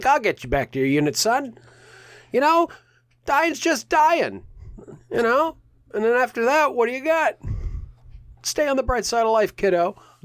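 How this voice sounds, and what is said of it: Character voice of a jolly soldier. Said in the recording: “the jolly soldier ... The cheery soldier, the fat guy ... my impression”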